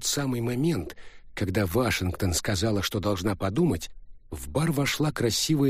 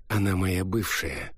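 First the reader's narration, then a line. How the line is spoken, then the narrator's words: Soft. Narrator (Russian): мягко ответил Джа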